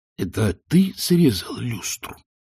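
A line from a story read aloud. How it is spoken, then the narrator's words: Hissing whisper. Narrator (Russian): свистящим шепотом осведомился он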